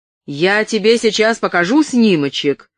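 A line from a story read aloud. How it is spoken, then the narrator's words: Harsh bark. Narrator (Russian): рявкнула Касси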